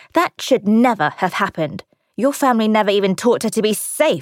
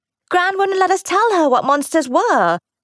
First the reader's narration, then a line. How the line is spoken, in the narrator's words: Ruth blurted, as if surprised into honesty